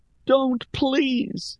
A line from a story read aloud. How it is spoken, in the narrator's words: Rhea pleaded with the king